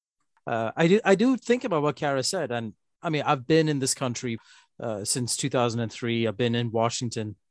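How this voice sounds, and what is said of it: Accent with West Coast American vowels. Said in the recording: “your vowels have turned West Coast American... You're starting to shade your R's at the end now”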